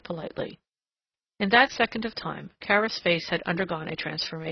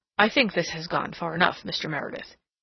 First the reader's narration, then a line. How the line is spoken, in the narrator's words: he said harshly